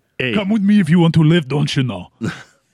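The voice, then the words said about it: Schwarzenegger impression, Minnesota accent. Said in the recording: “Schwarzenegger in a Minnesota accent”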